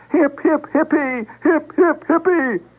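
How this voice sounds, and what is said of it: Screamed high falsetto voice. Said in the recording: “began screaming with the varying tones of imbecility. High falsetto voice.”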